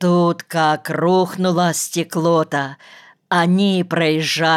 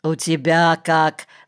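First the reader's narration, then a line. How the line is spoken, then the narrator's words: Plain. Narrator (Russian): спросил Виктор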